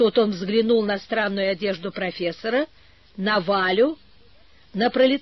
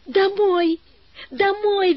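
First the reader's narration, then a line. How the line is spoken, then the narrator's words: Cheerful shout. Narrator (Russian): весело закричала Валя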